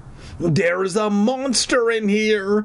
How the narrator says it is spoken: I wailed

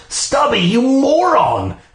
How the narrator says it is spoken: I shrieked

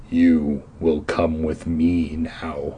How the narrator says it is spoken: he growled

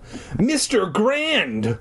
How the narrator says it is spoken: I exclaimed

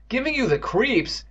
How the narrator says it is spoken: Evan cried

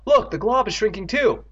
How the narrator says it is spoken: Andy cried

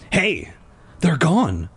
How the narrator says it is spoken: I whispered

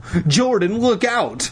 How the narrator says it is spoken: Lauren cried

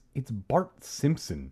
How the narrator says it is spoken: she muttered

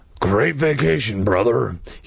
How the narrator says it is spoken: he said through clenched teeth

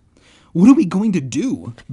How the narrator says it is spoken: Ben cried

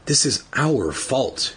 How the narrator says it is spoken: she murmured

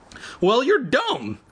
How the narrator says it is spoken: Evan cried

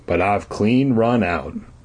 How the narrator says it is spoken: Grandpa Kurt replied with a sigh

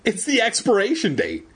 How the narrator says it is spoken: she cried happily

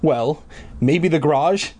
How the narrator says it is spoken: Dad laughed

